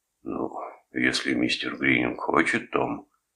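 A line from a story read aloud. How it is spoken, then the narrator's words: Quiet, injured, spitting blood. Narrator (Russian): тихо вымолвил Доминик, сплевывая кровь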